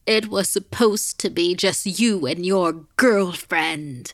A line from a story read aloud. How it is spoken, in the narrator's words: the woman shrieked